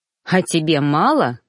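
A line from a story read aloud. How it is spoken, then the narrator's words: Snorted. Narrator (Russian): фыркнул я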